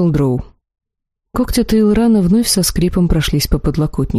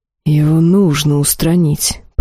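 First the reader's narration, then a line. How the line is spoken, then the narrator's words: Hiss. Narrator (Russian): прошипел золотой жрец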